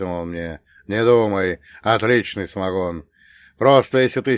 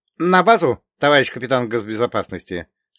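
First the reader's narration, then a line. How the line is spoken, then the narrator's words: Cheerful question. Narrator (Russian): спросил он бодро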